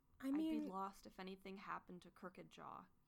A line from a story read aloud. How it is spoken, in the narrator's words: he murmurs